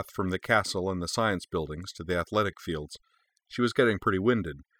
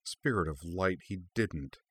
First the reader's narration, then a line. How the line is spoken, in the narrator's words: Kaname muttered